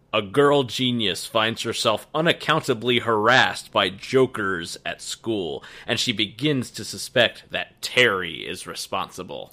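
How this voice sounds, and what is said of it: Dramatic movie-trailer voiceover voice. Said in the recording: “I shall read them in my best dramatic voiceover voice.”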